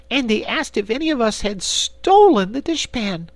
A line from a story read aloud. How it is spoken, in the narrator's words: continued Corporal Waddle indignantly